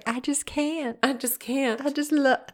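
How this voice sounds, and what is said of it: Put-on southern accent. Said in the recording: “Not that Gina Davis has a southern accent. I don't know where that popped in from”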